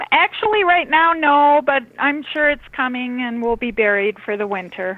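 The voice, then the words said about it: Minnesota regional accent. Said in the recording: “I like the way you talk. ... we like your accent.”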